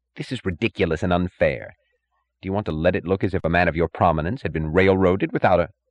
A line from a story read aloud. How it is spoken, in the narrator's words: The third and youngest judge, who had acted as prosecutor, snapped impatiently